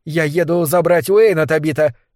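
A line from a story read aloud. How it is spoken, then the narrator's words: Shouting. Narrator (Russian): крикнула Вик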